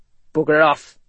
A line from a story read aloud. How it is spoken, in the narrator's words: Ethan gave a faint growl